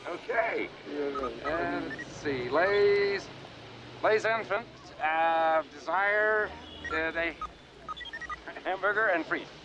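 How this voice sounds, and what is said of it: American accent speaking French. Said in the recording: “Quel accent remarquable. Chicago? Peut-être Cleveland.”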